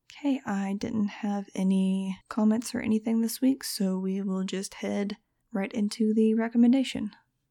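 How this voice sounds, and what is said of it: Sore, scratchy voice. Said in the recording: “As you can probably hear, my voice is kind of sore and scratchy ... it gets kind of crunchy”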